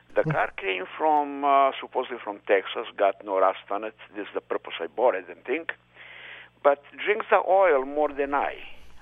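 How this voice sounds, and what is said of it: Eastern European accent. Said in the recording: “what is this wonderful accent that you have? ... I'm going to guess this is European. ... Eastern European. ... Yugoslavia.”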